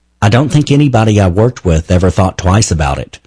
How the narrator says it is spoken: Rachel Oswald said

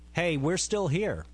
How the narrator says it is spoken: Wallace said

